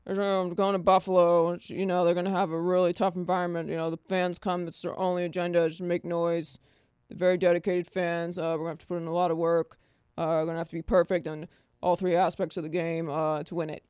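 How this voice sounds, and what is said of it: Imitates another person's voice. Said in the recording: “doing a terrible impression ... this is what he, in my mind, is what he sounds like”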